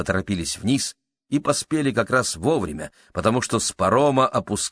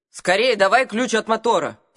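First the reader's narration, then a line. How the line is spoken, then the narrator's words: Shouting. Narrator (Russian): крикнула мужу миссис Адамс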